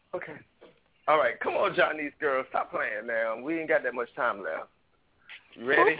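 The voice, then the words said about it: Hoarse voice. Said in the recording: “You know I'm hoarse, right?”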